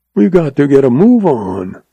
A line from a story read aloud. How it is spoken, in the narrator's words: rasped Cuchillo